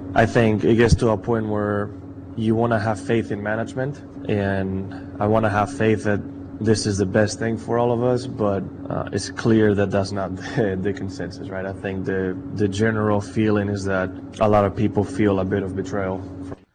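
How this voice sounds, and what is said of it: Put-on Spanish accent. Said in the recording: “You chose to address the room in a Spanish accent ... Very, very sexy.”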